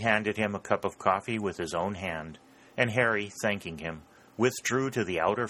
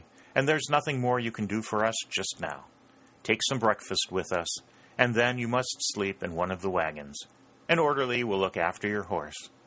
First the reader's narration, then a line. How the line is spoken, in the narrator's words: said Lee gravely and kindly